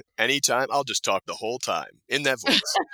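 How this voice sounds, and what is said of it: Radio announcer voice. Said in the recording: “do you hear that radio voice? ... Whatever you'd like to say in that radio voice.”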